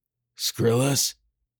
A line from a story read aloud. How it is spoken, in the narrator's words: he rasped